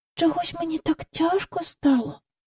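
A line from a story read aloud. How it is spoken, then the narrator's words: Whisper. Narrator (Ukrainian): прошепотіла вона до Майкла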